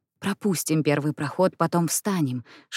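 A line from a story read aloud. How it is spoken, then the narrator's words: Whispered. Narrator (Russian): шепнул ей Эдвард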